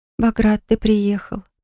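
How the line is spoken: Sleepy. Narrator (Russian): проговорила сонно

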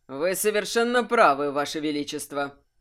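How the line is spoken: Neutral tone. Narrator (Russian): нейтральным тоном сказал млеур

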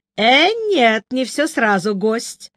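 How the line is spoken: Ringing laughter. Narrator (Russian): звонко рассмеялась наша хозяйка

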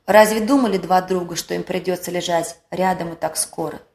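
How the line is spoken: Sighing mother. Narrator (Russian): вздохнув, сказала мама

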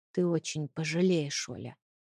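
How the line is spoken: Quiet. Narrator (Russian): тихо проговорил он

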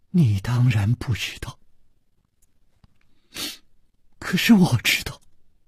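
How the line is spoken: Soft sigh. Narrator (Chinese): 公平轻轻地叹了一口气

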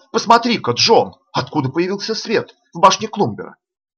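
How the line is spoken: Sudden astonished exclamation. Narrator (Russian): Вдруг сестра, с изумлением воскликнула

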